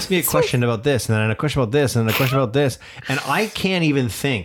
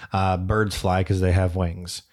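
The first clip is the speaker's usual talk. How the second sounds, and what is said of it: Flat monotone delivery. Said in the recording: “I'm doing it in, like, monotone.”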